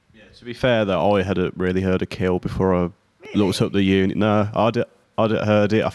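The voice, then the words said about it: Birmingham (Brummie) accent. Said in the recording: “I'm from Birmingham. ... Oh, I can hear the accent. ... I love the accent. It's cool. ... people always say it's like a really depressing, unfriendly accent, but I think it's the opposite. I think it's quite friendly.”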